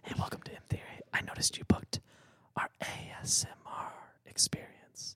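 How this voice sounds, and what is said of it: Whispered ASMR-style voice. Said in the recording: “They whisper to you ... It's the ASMR restaurant.”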